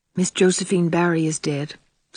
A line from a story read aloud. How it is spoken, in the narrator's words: said Anne in a low tone